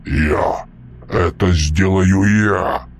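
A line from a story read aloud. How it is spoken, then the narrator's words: Booming drone. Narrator (Russian): прогудел Мальп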